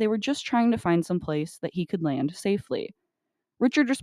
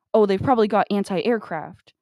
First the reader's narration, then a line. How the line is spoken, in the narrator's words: he basically shouts with paranoia